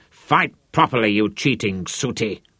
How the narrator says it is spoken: Manfred snarled at him

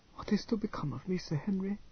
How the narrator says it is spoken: Katinka whispered

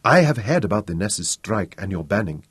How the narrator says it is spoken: said softly

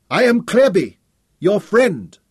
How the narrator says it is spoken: Tom shouted back

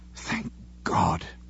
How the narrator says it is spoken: he murmured fervently

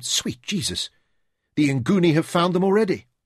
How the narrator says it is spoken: he exclaimed

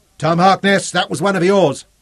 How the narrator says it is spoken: Zuga shouted

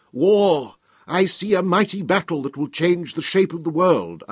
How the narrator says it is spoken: cried to make myself heard above the sounds of conflict

